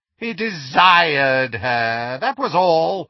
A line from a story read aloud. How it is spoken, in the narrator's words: sneered Voldemort